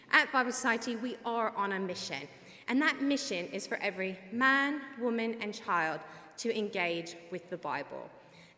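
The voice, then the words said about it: Mixed Kentucky and English accent. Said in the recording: “I'm originally from Kentucky, but I've now lived in England for over 16 years. So I have a bit of a mesh of an accent, and it really changes when I get excited.”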